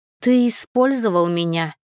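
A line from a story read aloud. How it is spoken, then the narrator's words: Exclamation. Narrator (Russian): воскликнула я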